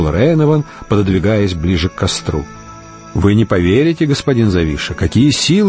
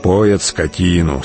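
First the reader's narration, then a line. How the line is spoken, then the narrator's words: Calm interjection. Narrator (Russian): спокойно вставил сулимец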